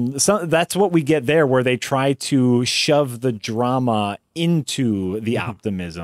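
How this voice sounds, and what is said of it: Usual voice. Nothing is said of it.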